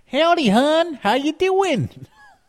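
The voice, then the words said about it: Put-on Baltimore Dundalk accent. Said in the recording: “the Dundalk accent, which is a little small section of Baltimore, Maryland ... the accent is very like, let's see if I can do it.”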